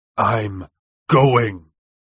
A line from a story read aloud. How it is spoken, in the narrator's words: Valentin thundered